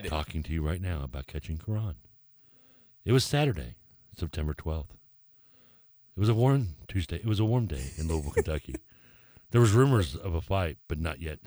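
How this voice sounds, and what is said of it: Put-on podcast host voice. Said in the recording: “do a podcast voice. You have to talk differently... Give me your podcast voice... Very good.”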